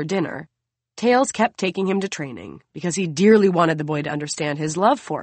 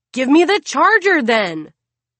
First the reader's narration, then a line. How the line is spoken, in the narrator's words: his son is yelling at his big sister